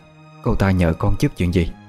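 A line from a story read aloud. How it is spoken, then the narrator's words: Worried question. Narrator (Vietnamese): bà hỏi lại với giọng điệu đầy lo lắng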